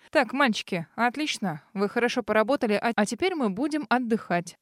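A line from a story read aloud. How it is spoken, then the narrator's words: Commanding order. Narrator (Russian): Распорядилась она повелительным голосом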